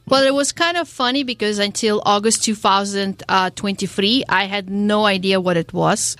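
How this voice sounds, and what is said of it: Slight foreign accent. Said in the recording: “I see you have a little accent there.”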